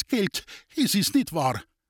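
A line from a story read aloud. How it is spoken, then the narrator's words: Trembling question. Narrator (German): fragte Reser mit bebender Stimme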